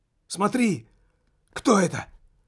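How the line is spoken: Shouted out. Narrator (Russian): выкрикнул Джамбоне

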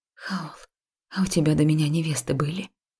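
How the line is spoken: Breathed out. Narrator (Russian): Выдохнула я

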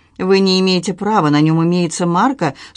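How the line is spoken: Dry remark. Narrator (Russian): сухо заметила Люси

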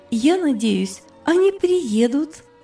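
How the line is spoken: Joyful. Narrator (Russian): радостно сказала Делорис

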